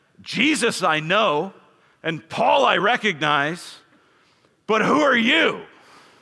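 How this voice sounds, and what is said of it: Growling demon character voice. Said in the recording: “That was my best demon voice.”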